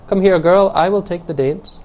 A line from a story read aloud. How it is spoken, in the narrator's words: she cried herself to the girl